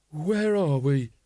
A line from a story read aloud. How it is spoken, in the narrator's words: groaned